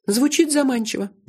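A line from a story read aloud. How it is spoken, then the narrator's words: Sighing. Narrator (Russian): вздохнула она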